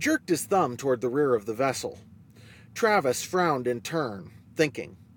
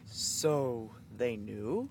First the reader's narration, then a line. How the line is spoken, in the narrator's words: Travis spoke slowly, still catching up with Nate's thoughts